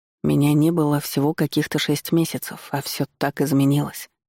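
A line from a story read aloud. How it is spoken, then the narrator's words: Puzzled mutter. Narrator (Russian): озадаченно пробормотал Дмитрий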